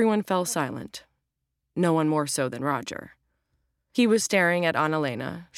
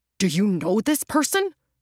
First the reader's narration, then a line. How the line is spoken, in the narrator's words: Roger spluttered